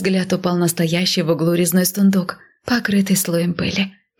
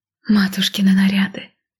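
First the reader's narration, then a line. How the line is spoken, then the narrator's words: Breathed out. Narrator (Russian): выдохнула я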